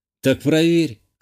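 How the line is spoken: Snort. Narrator (Russian): хмыкнул я

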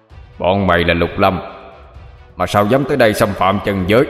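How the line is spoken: Shouting. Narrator (Vietnamese): Tên cục đầu quát lên

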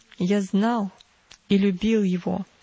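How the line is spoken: Plain. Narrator (Russian): сказал Арий

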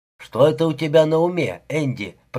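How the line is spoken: Grumbling. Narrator (Russian): проворчал

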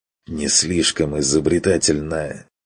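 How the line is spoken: Forced hiss. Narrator (Russian): выдавил с шипением

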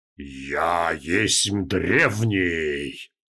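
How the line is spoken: Growl. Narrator (Russian): прорычал Нахаг

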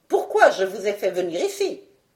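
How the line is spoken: Sneering. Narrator (French): dit-il en ricanant

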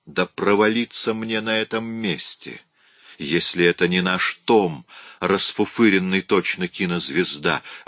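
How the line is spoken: Exclamation. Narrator (Russian): воскликнул

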